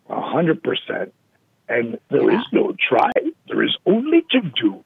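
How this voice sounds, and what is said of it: Yoda character voice impression. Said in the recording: “my Yoda impersonation”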